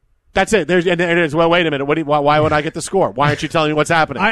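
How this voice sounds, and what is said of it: Usual voice. Nothing is said of it.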